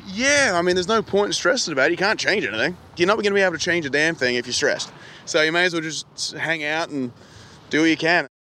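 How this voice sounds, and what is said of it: Australian accent. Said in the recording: “hearing this Australian accent while in America is like finding a beautiful watering hole in the middle of a desert ... It's music to my ears”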